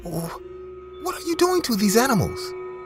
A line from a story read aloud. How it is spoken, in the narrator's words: Maxwell and I began to stutter, saying